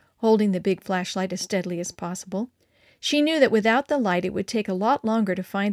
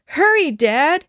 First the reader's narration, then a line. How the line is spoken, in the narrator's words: Mary cried